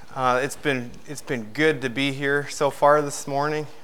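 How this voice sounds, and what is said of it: Out of breath, breathy speech. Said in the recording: “I'm a little bit out of breath.”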